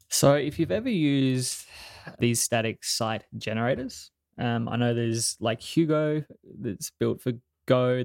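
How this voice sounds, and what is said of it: Australian accent. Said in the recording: “sweet Aussie accent”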